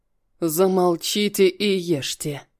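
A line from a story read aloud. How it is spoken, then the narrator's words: Curt and rough. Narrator (Russian): бросил грубо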